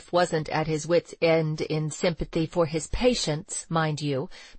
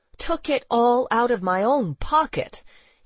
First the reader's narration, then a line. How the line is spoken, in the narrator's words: exclaimed in vexation